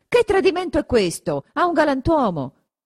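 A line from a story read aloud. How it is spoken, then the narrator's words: Shout. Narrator (Italian): Renzo ... grida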